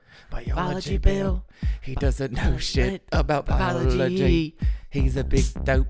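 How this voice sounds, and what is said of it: Sings in a put-on accent. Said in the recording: “Why am I singing this with the accent? Because I just did one.”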